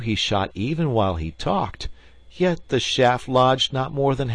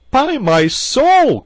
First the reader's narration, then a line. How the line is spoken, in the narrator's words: cried Gilbert